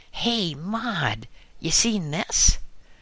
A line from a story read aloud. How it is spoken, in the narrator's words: yelled back Martha